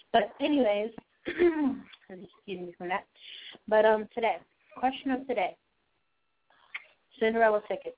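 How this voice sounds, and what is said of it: Hoarse voice cutting in and out. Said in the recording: “My voice is going in and out right now. Kind of hoarse.”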